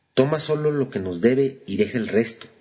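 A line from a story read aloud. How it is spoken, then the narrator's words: Plain. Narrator (Spanish): dijo mi mamá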